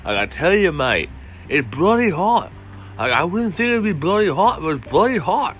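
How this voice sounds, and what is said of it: Put-on Australian-style accent. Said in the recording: “I just started this with a random accent for no reason ... This accent is getting more and more racist ... back to my normal voice.”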